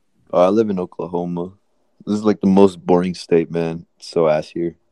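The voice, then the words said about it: American accent. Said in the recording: “are you from America? I can tell by your accent.”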